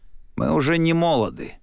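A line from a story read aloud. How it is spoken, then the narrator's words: Sorrowful sigh. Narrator (Russian): горестно вздохнул бансир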